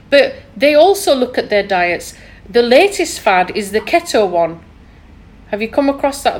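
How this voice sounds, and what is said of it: Thick Yorkshire accent. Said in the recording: “my thick Yorkshire accent... Yes, you are.”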